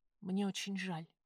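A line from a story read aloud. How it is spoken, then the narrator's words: Whisper. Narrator (Russian): прошептала она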